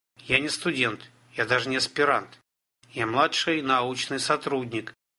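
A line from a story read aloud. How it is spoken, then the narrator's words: Stern, imagined speech. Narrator (Russian): строго сказал Олег, разумеется, только в своем воображении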